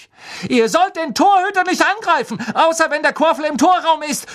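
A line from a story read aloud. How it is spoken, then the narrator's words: Shouting at someone. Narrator (German): schrie sie Bowle und Derrick an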